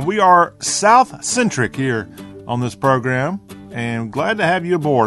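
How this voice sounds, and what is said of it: Southern American accent. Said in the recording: “talk with a Southern accent”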